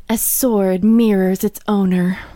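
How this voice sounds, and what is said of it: Sultry phone sex operator voice. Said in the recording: “that impression? ... do your phone sex operator voice ... that's kind of what she sounds a bit like to me”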